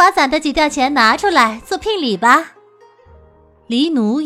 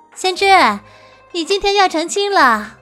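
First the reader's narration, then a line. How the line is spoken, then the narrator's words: Laughing. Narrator (Chinese): 白姬笑道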